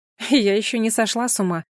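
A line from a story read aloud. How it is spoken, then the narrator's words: Snorting retort. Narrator (Russian): фыркнула в ответ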